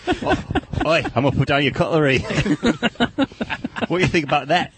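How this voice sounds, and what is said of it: Put-on Australian accent. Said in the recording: “Is that Australian? ... That's pretty close.”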